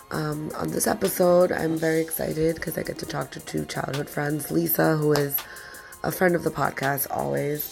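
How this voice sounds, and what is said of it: Congested, sick-sounding voice. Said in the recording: “excuse my voice, I do have a cold.”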